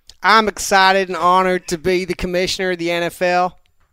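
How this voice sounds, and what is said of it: Put-on Southern Texan American accent. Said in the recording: “an entertaining American accent... Basically Texan... you're also from Southern Texas”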